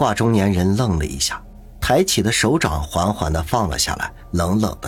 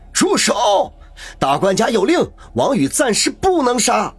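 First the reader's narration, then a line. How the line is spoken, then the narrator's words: Loud shout while running. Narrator (Chinese): 一个黑西服 一面向这边跑来，一面大声的叫道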